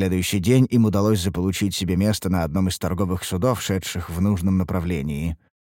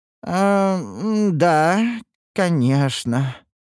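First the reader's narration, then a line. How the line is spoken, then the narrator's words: Disappointed drawl. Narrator (Russian): разочарованно протянул Гилберт, рассчитывающий на иной исход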